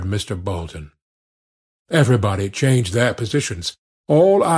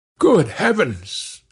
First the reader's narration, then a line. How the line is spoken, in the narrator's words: exclaimed everybody in simultaneous horror